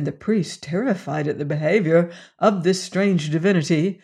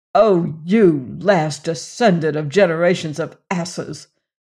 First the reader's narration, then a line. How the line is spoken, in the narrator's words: he said bitterly